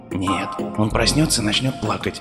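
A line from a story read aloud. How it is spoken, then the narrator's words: Father's quiet reply. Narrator (Russian): так же тихо ответил отец Дэви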